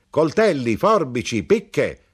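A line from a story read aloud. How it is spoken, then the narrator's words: Knife grinder's shout. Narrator (Italian): gridò l'arrotino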